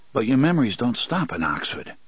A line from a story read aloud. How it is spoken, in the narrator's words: he said softly